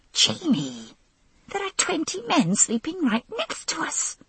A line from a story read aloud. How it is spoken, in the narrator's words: I shouted in a whisper